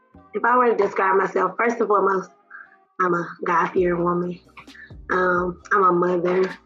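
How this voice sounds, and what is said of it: Slightly hoarse voice. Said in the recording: “my voice is a little hoarse too today because I was yelling at my baby's game yesterday”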